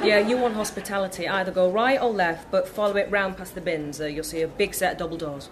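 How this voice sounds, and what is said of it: Northern English accent. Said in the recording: “Northern accent.”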